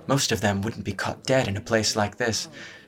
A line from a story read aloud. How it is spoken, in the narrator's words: she murmured